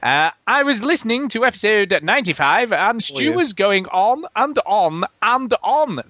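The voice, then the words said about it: Deliberately silly put-on voice. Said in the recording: “I'm trying to do a stupid voice now, especially for you.”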